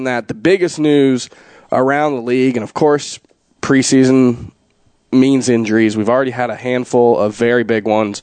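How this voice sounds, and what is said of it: Hoarse, rough voice. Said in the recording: “my voice being a little hoarse ... my voice just cracked ... Rough and gruff”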